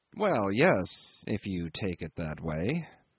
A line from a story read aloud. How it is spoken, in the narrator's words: I mumbled